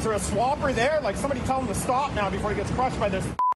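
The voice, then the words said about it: Canadian accent. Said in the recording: “listen to that Canadian accent. Oh, my God.”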